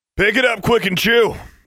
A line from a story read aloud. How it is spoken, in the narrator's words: yelled Maximilian from behind